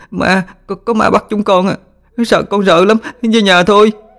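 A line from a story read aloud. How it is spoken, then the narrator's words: Panicked sobbing children. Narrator (Vietnamese): chúng hoảng loạn mà khóc nức nở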